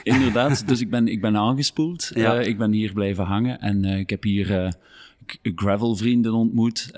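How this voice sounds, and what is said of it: North Limburg Flemish accent. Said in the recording (Dutch): “Wel, ik ben eigenlijk van Noord-Limburg afkomstig, van Overpelt. ... ik hoor het een beetje aan het accent.”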